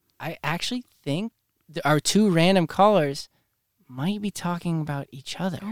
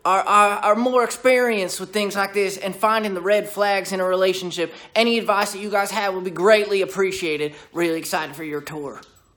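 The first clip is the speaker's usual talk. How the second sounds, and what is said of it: Put-on Southern accent. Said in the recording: “your Southern accent sounds a lot like his”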